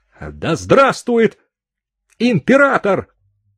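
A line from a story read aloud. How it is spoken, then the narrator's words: Shouted. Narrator (Russian): крикнул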